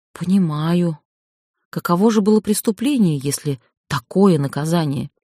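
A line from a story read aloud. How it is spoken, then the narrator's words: Whisper. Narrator (Russian): прошептал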